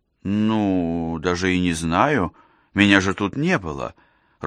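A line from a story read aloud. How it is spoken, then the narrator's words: Timid admission. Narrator (Russian): робко призналась она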